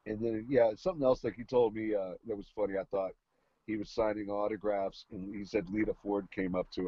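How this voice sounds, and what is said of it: Usual voice. Nothing is said of it.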